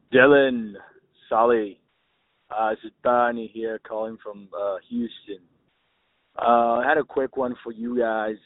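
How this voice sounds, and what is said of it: Unusual mixed Latino-Australian-British accent. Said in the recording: “I got a bit of a weird one. ... Mix of a Latino with the Australian accent, ... bit of British in there as well ... I was hearing some New Zealand in there ... This accent sounds totally fake. And totally unique.”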